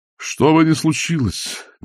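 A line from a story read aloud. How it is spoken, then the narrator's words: Breathless exhale. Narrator (Russian): выдохнул он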